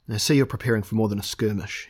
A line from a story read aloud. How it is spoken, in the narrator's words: he said